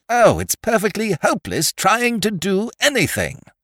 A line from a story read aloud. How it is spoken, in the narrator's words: exclaimed without the least reason